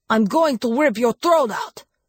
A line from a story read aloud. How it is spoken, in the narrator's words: the Strigoi snarled